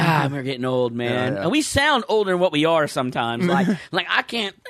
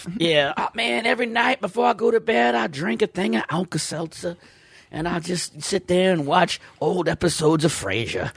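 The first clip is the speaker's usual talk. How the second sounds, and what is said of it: Put-on old Southern accent. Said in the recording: “I'm talking like an old Southern.”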